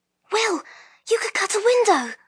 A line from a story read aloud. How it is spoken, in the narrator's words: Lyra said urgently